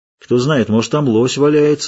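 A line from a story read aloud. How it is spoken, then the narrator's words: Plain. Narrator (Russian): сказал Геральт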